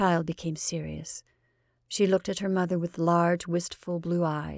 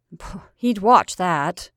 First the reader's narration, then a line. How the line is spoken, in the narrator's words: said the mother bitterly